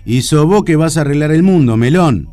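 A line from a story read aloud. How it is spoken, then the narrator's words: Greengrocer's roar. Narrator (Spanish): rugió el verdulero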